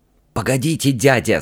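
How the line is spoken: High hissing whisper. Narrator (Russian): сказал принц высоким свистящим шепотом

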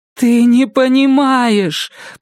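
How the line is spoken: Moaning. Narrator (Russian): простонала она

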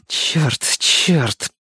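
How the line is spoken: Repeated through gritted teeth. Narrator (Russian): сквозь зубы повторяла Марго

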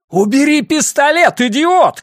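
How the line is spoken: Shouted. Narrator (Russian): крикнул Расти Чифу

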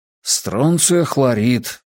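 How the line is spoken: Quiet. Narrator (Russian): тихо промолвил стрелок

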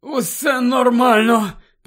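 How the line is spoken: Groaning. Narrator (Ukrainian): простогнав Невіл, хапаючись за живіт

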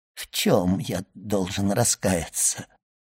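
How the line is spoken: Barely audible mutter. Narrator (Russian): едва внятно пробормотал Данглар

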